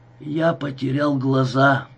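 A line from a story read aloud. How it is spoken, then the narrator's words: Moaning. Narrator (Russian): простонал он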